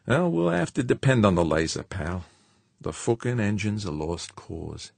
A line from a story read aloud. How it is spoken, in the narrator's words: Heaving a weary sigh, George said